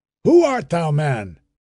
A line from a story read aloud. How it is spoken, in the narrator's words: asking angrily